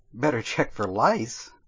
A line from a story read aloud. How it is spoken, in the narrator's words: Rajira laughed